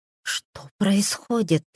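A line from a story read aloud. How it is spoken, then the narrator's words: Whisper. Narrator (Russian): прошептала она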